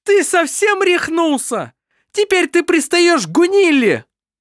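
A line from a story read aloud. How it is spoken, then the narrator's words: Female exclamation, rushing. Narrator (Russian): Воскликнула она, бросаясь к нему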